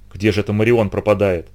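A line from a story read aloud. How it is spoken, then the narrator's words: Whisper. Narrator (Russian): прошептал Фернан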